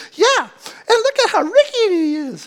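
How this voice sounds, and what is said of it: Cartoon character voice. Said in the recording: “that's my cartoon voice”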